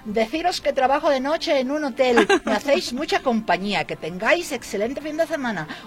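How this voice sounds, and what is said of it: Put-on Spanish from Spain accent. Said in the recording (Spanish): “Lo voy a decir en tu acento ... Desde Vigo, España”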